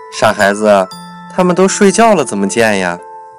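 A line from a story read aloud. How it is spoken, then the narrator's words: Father, smiling. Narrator (Chinese): 爸爸笑了笑说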